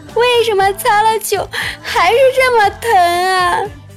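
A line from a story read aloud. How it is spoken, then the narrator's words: Crying while speaking. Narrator (Chinese): 他边哭边说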